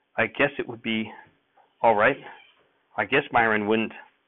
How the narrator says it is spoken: She wet her lips nervously and half stammered

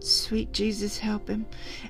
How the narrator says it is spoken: Calpurnia murmured

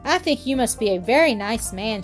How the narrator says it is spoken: she said

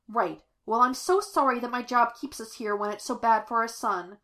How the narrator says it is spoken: Amanda snapped

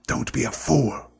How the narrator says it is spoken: snarled the face

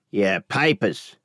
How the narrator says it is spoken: rasped

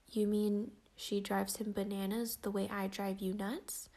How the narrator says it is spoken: I said

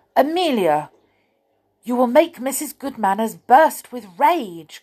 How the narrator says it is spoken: cried Tom, running up

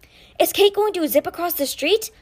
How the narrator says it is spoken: Ty breathed

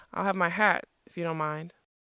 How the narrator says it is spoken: Smendrick cleared his throat and said hesitantly

